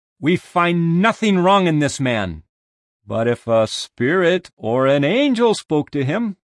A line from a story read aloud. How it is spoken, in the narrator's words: some of the scribes of the party of the Pharisees arguing fiercely, saying